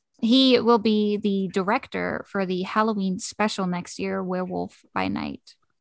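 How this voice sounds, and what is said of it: Hoarse, failing voice. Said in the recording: “Can you hear now my voice is? ... Yeah, it's starting to go.”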